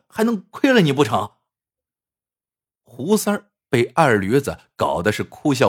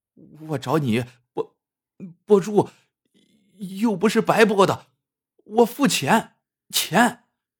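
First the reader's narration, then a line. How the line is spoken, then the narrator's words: Frightened stammering. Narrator (Chinese): 吓得，结结巴巴的说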